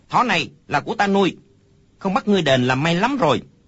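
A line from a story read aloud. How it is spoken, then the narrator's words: Child's angry loud shout. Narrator (Vietnamese): Đứa trẻ kia đột nhiên lông mày dựng ngược, hai mắt mở to quát lớn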